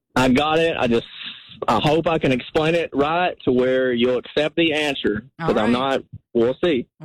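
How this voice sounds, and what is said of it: Regional accent, possibly Texan. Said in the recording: “The accent”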